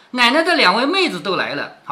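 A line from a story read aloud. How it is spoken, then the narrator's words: Servants laughing. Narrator (Chinese): 婆子丫头都笑着说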